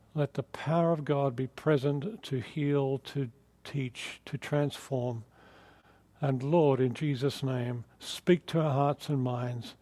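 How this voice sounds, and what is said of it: Australian accent. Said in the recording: “you might notice my accent is not quite Californian yet, so I'm from Australia”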